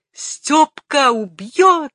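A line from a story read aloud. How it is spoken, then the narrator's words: Desperate shrill scream. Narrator (Russian): закричал за соседним столиком отчаянный визгливый голос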